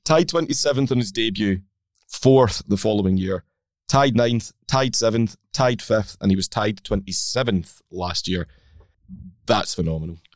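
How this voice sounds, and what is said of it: Slightly croaky voice. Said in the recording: “my voice is a bit croaky ... I might have cheered”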